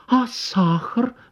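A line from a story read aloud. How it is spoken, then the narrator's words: Exclaiming. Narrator (Russian): воскликнула Анна Николаевна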